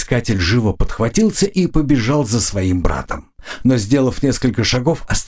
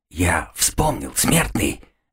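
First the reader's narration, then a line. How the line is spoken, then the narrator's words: Fervent whisper. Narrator (Russian): горячо зашептал он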